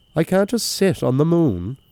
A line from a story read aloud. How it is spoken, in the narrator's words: cried Daniel